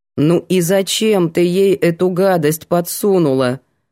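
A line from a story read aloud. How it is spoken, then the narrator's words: Stern question. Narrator (Russian): строго поинтересовалась Светка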